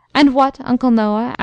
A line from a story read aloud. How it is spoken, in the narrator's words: asked the colonel kindly